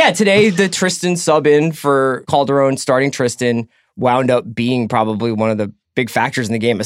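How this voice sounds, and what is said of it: Usual voice. Nothing is said of it.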